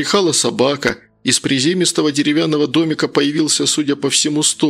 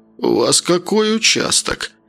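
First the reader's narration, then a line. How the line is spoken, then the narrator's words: Hoarse question. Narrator (Russian): хрипло спросил он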